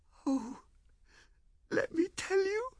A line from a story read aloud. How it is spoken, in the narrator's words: she wailed